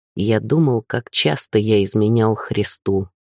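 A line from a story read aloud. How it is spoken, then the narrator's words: Quiet voice. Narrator (Russian): сказал тихим голосом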